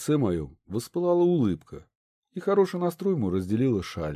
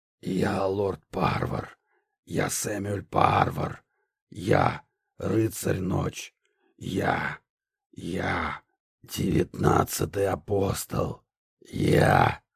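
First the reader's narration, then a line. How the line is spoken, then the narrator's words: Hoarse sepulchral otherworldly voice. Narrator (Russian): Отрубленная голова деда хрипя, могильным, потусторонним голосом произнесла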